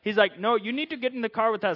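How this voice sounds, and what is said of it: Put-on Indian accent drifting southern. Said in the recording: “I'm going to stop the Indian accent because it's going to get really bad. I got like a sentence and a half, and then it just like turns southern.”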